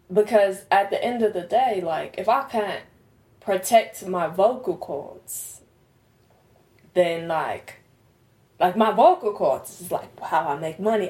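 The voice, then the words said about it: Put-on British accent. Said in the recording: “I don't know if I'm saying this right in this British accent”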